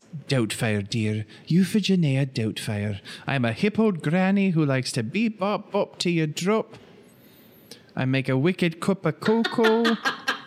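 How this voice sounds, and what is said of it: Mrs. Doubtfire old granny voice. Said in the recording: “You sounded like Mrs. Doubtfire. ... that was a killer impression. ... it's really good, actually. ... It is really good. ... It's pretty spot on.”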